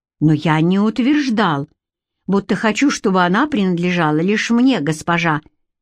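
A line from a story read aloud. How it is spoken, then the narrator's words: Sharp retort. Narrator (Russian): резко бросил он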